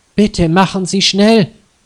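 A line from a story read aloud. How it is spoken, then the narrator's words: Terse, anxious. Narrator (German): sagt Frau Schmidt nur und sieht sich ängstlich um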